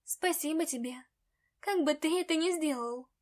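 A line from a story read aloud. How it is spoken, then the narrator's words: Sighing. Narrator (Russian): Вздохнула я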